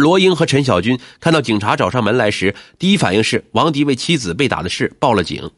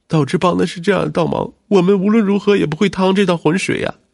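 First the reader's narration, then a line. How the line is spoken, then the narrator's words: Crying. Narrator (Chinese): 罗英哭着说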